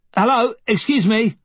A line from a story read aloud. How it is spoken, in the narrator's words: one of the men called out